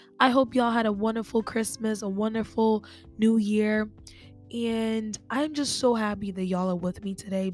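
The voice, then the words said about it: Congested, sick-sounding voice. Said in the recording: “I have a little bit of a cold. That's why my voice sounds like this. It doesn't sound like this on a regular basis”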